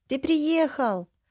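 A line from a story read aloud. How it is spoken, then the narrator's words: Joyful exclamation. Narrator (Russian): уже восклицает радостно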